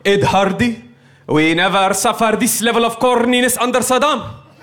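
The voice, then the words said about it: Put-on Arab accent. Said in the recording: “my Arab guy impression”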